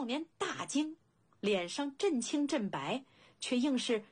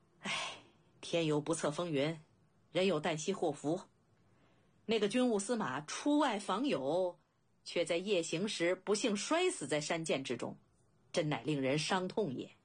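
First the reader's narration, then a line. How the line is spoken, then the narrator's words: Sighing. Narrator (Chinese): 庞涓叹息一声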